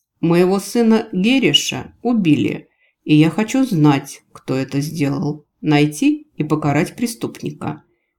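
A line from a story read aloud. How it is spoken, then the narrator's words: Clipped, grief-stricken father. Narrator (Russian): отчеканил убитый горем отец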